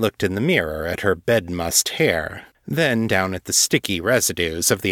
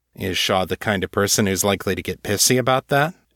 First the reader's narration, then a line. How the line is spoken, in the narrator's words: John asked